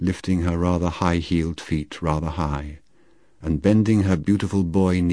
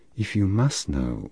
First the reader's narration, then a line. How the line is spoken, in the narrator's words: she said